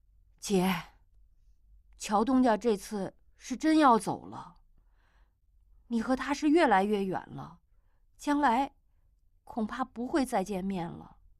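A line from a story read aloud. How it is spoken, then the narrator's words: Sighing. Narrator (Chinese): 巧姑叹了口气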